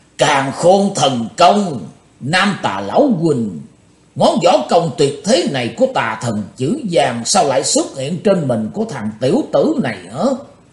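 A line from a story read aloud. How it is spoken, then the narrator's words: Roaring old demon. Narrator (Vietnamese): Bắt đọc lão ma gầm tợ sống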